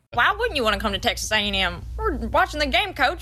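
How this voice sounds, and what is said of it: High-pitched southern Jimbo Fisher impression. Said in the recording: “limited fake Jimbo Fisher ... I got like a little high-pitched thing with a southern accent ... I kind of sound like Bill Belichick a little bit sometimes because I don't talk in like a full sentence. I make some pauses here and there.”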